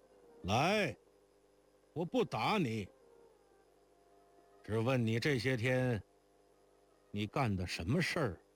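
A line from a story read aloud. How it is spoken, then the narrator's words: Loud voice. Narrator (Chinese): 他父亲又大声道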